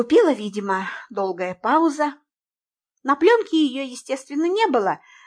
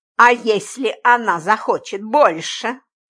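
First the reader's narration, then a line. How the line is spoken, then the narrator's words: Angry question. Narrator (Russian): злобно спросил Джимми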